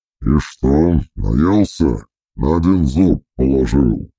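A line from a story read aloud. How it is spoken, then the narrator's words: Grumbling. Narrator (Russian): буркнул гримуар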